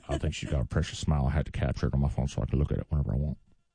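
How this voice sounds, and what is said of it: Old man voice. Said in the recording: “I'm doing a great old man voice.”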